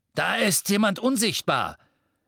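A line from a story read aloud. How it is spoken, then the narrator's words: Masked figure shouting. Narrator (German): rief ein maskierter Todesser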